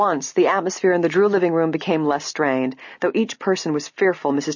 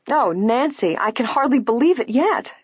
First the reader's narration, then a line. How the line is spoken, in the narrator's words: Allison declared happily